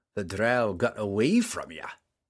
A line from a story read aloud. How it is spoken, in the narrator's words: the dwarf said, and his chuckle